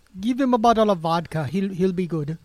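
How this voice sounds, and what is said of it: Bad put-on Russian accent. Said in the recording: “That was a really, really bad Russian accent.”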